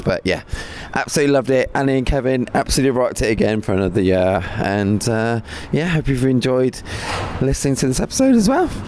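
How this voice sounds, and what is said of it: Wrecked, hoarse voice. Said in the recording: “my voice is wrecked”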